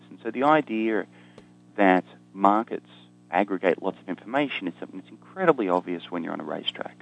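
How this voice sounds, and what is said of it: Australian accent. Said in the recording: “you can probably tell from my accent, I'm an Australian”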